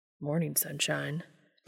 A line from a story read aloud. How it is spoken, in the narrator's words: Dean said quietly